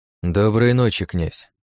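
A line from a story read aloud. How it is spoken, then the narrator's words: Dry, curt. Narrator (Russian): сухо проговорил я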